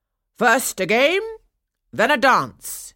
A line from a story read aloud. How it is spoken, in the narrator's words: he called out